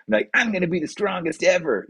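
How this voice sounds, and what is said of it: Imitates another person's voice. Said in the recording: “that was a terrible impersonation of you”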